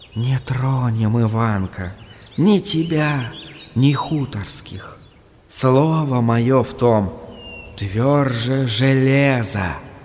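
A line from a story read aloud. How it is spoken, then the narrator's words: Whispering. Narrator (Russian): шептала, шептала трава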